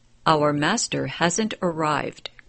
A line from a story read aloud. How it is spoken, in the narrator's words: they said